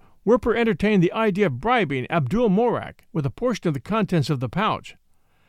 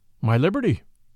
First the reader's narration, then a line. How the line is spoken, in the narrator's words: replied Werper